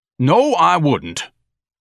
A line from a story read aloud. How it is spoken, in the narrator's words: Ignatius thundered